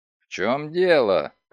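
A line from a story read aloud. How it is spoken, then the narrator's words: Grumbling, lip-smacking. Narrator (Russian): проворчал, причмокивая губами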